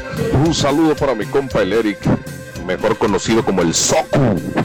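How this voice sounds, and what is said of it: Announcer-style radio voice. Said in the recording (Spanish): “traes voz de locutor.”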